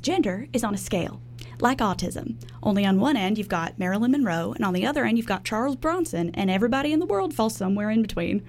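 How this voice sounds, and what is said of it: Put-on Texan accent. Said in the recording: “Will you be doing the Texan accent for the whole thing? ... Mostly like Trisha's kind of like Texan accent.”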